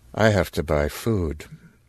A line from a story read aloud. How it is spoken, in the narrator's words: In the same flat voice